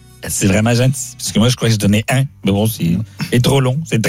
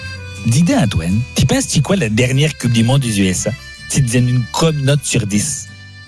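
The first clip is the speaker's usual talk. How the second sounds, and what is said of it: Put-on Québécois French accent. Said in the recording (French): “on fait les questions avec l'accent québécois”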